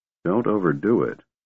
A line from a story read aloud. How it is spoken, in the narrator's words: Riverwind muttered